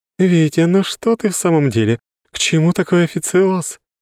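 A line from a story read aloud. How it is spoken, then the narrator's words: Giggle. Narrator (Russian): хихикнула она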